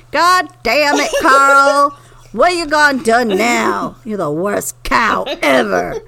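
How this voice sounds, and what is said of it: Exaggerated country twang. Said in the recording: “he had this country twang.”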